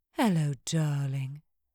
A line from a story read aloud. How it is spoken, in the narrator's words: Nico's mother purred